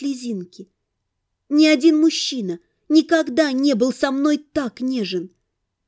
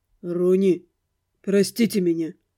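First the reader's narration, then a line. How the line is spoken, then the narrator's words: Quiet. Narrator (Russian): тихо сказал Эдмонд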